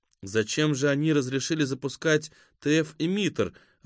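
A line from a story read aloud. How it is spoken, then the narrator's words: Timid question. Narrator (Russian): робко спросила Зарима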